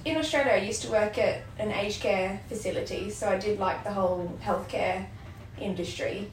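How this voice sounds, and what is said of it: Australian accent, slightly English-tinged. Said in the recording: “never lost the accent, either. ... every now and then, a couple of words I say sound very English”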